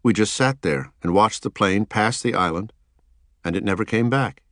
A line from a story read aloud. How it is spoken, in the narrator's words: said